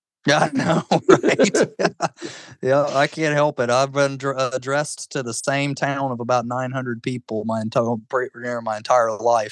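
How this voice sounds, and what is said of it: Slight Southern drawl. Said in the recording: “you probably hear a little bit of drawl in my voice”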